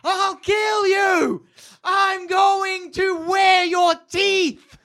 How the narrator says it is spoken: She screams into the crowd

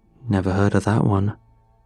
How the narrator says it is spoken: he said

